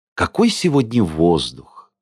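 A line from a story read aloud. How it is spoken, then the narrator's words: Heartfelt tone. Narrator (Russian): сказала Майя проникновенным тоном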